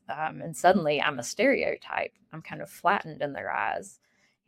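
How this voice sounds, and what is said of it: Appalachian accent. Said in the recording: “my accent, people immediately picked up on it ... "Appalachia,"”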